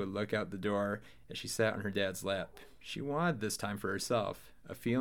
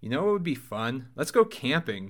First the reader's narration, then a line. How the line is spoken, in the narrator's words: Mike exclaimed